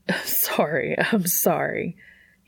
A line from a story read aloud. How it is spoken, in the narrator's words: he wheezed